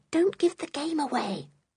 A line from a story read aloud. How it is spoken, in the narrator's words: she whispered